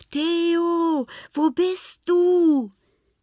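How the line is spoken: Called out. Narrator (German): rief Lena

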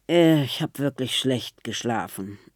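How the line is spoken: Murmuring. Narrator (German): murmelt sie

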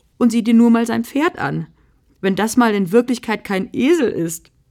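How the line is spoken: Laughing. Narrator (German): vor Lachen

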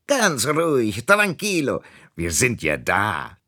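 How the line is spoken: Calling out. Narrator (German): rief der palmenförmige Schlüsselanhänger

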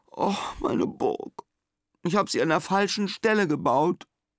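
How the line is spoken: Groaning, near tears. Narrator (German): stöhnt Simon und Tränen steigen in ihm auf

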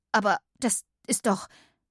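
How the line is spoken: Stammering. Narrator (German): stammelte Katinka

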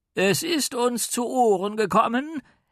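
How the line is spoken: Calling out. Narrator (German): rief er, denn mittlerweile sprach er von sich in der Mehrzahl

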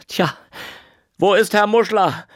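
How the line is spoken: Man calling out. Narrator (German): rief ein einfacher Mann

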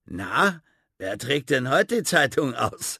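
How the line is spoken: Man asking, laughing. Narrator (German): fragte einer der Männer lachend

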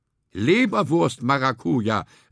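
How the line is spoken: Calling out. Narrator (German): rief er

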